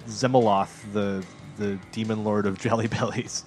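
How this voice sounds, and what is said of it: Deep menacing demon voice. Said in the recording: “How was that demon voice? Was that any good? ... Pretty good.”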